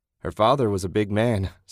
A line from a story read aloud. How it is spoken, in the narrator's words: Susan laughed